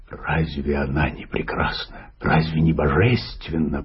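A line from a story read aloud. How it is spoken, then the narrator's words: Whispered. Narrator (Russian): прошептал Пайпер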